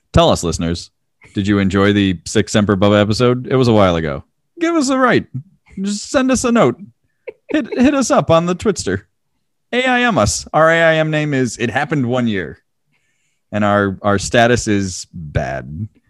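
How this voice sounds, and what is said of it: Imitates another person's voice. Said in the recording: “my Sarah impression.”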